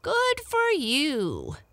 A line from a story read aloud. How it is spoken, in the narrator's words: cried the old woman